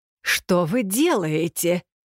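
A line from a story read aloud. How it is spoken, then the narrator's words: Anxious exclamation. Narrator (Russian): с беспокойством воскликнул он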